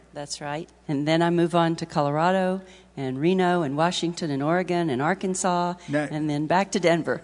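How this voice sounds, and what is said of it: Slight Texas accent. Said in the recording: “you have a slight Texas accent ... It's just a nice thing to listen to.”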